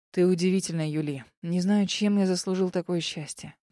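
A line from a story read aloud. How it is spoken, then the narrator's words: Quiet. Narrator (Russian): тихо сказал Эмилий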